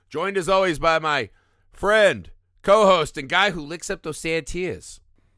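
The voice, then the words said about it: Put-on Boston accent. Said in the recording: “It's good Boston. That might be your most accurate accent. That's good.”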